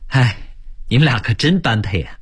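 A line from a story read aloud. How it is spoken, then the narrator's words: Laughing, admiring sigh. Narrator (Chinese): 王淼笑着感叹说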